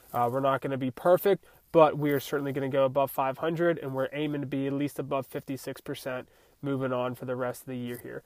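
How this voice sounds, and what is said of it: Congested, nasal, sore-throated voice. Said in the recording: “I sound like a whiny little bitch. I'm trying to get over a head cold here... Throat kind of sucks. Can't breathe through my nose.”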